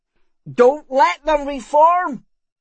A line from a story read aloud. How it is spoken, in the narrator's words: he bellowed